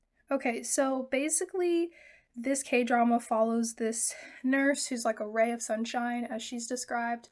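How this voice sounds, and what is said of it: Voice affected by a cold. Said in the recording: “Please excuse my voice. I do have sort of an allergy cold thing going on”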